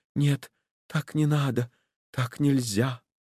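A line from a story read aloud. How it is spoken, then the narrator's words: Fast frightened whisper. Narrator (Russian): Юлия, точно в испуге, горячо и быстро шептала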